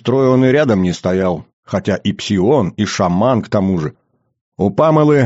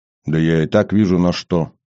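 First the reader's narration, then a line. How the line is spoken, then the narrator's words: Calm droid. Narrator (Russian): спокойно отзывается дроид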